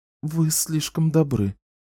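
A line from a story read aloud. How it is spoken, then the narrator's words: Muttering. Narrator (Russian): пробормотала она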